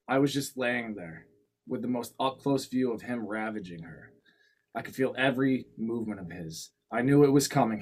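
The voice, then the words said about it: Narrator podcaster reading voice. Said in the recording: “my reading voice,... my narrator podcaster voice”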